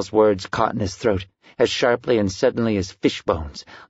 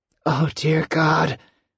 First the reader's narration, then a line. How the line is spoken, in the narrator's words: Sal groaned